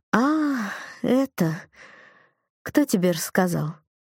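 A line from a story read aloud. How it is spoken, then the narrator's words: Disappointed drawl. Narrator (Russian): Она как-то разочарованно протянула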